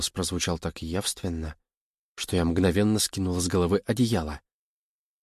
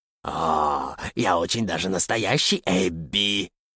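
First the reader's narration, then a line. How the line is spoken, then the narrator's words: Hissing. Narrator (Russian): прошипело существо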